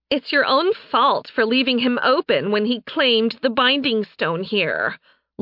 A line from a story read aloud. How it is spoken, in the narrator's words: Laura whined